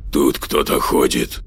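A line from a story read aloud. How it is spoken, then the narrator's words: Whisper. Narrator (Russian): прошептал он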